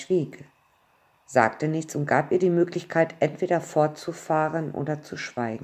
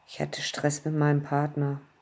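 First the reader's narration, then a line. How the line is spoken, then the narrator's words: Mumbling. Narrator (German): murmelte sie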